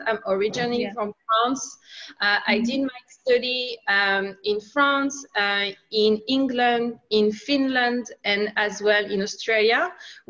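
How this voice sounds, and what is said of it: French accent. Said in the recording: “I'm sure you can hear it. I have a French accent.”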